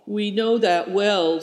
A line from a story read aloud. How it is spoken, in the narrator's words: said Christian